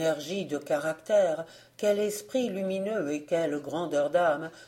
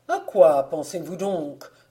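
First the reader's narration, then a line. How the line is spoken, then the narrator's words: Plain question. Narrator (French): demanda fin Lapie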